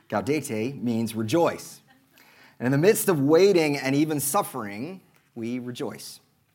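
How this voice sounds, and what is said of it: Oklahoma accent. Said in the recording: “my Oklahoma accent”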